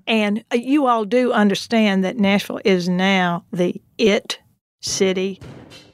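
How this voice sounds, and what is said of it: Exaggerated Southern accent. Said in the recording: “I'm going to put on my most Southern accent now... I thought that was pretty Southern”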